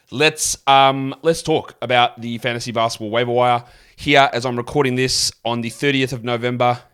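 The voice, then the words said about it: Speaks with an accent. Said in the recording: “Hope you don't mind the accent.”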